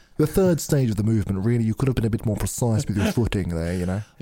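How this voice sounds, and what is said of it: Deep English gentleman voice, Patrick Stewart-like. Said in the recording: “accent ... Whilst so deep ... a manly, gentlemanly, English gentleman. ... Almost a bit like Patrick Stewart.”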